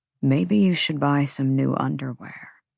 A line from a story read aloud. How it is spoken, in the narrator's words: he murmured